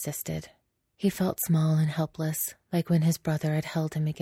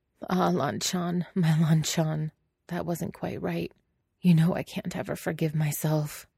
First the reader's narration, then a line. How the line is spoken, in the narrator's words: Wei Wuxian laughed, voice hoarse, and he muttered